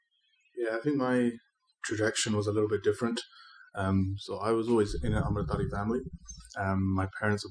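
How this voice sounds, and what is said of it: Non-local accent, likely British. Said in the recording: “you're not born and raised here, as many listeners may have guessed when they heard your accent for the first time ... in the UK”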